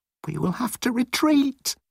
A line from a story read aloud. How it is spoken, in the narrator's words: thought